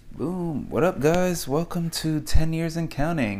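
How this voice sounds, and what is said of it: Announcer-style radio voice. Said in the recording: “such an awesome radio voice”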